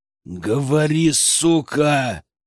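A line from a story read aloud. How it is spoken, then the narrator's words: Growl. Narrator (Russian): прорычал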